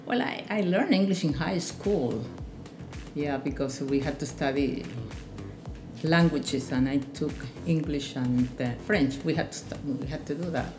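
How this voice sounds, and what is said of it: Spanish-accented English. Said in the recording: “Spanish is my native language, English, although I have an accent ... I do have an accent. I learned English as a young person, but as an adult, not as a child. And because of that, I have an accent.”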